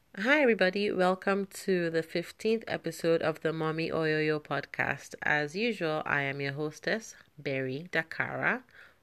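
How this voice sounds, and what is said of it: Slightly off, congested voice. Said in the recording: “my voice sounds a little bit off today. I am currently battling allergies ... My nose is running.”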